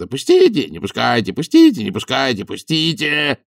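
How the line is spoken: Roaring. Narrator (Russian): взревел Фил

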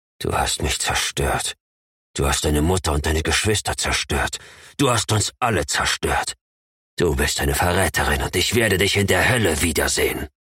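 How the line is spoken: Hissing. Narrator (German): zischte

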